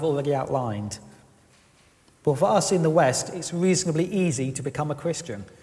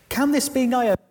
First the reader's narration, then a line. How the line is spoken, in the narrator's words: they exclaimed